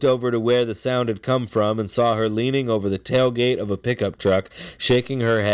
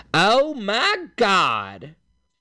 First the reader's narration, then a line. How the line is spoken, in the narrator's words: a woman's voice exclaiming in a nasal southern accent